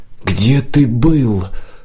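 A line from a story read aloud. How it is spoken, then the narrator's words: Whispered shout. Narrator (Russian): шепотом выкрикнула Нила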